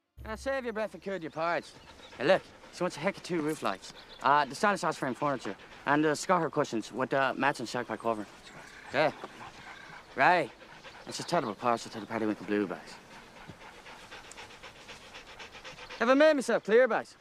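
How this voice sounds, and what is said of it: Odd mixed Irish-British pikey accent. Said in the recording (Chinese): “他是不是有一个很非常奇葩的口音 ... 谁都听不懂他们讲的啥，就是有一些 Irish，然后有一些 Britain，反正就各种口音杂糅”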